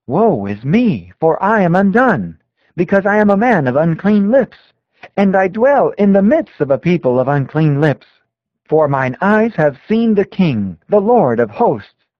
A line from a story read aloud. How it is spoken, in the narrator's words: when Isaiah beheld the glory of the Lord, he exclaimed